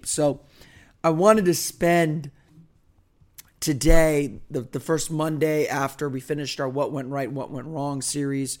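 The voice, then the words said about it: Rough, strained voice. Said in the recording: “my voice is in pretty bad shape”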